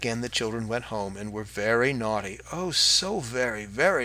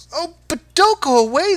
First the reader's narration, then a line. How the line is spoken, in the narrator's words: they cried